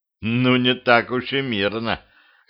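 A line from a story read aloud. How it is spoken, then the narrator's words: Wry grunt. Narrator (Russian): хмыкнул Петрович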